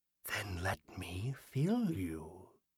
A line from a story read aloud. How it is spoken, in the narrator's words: the figure whispered